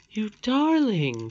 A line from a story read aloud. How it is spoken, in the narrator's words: cried the lady